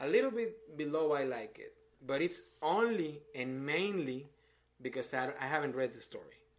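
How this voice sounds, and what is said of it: Non-native English accent. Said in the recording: “with my accent and language barriers”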